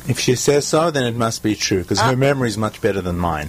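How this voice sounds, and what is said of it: South African accent. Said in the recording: “I love your accent. ... Johannesburg, South Africa.”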